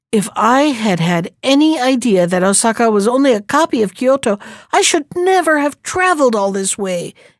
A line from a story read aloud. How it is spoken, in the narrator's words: exclaimed the frog from Kyoto